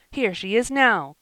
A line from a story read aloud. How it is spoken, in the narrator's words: cried Joel